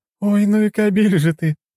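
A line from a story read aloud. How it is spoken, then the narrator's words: Laughing. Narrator (Russian): рассмеялась Джессика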